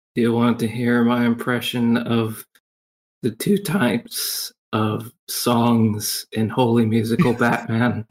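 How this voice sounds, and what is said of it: Exhausted, lifeless-sounding voice. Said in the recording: “You actually sound like you're dead. ... You sound exhausted. ... Did you just wake up?”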